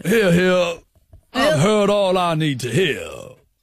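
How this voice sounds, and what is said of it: American detective-like character voice. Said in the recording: “Judge Jarchy was American in the intro. I'm wondering if I'm bringing that a bit ... you sound like a detective character”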